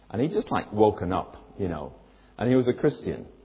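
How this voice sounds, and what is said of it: Usual voice. Nothing is said of it.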